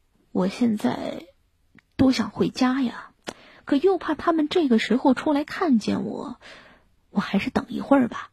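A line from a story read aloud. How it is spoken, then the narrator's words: Muttering. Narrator (Chinese): 阿里巴巴嘟囔道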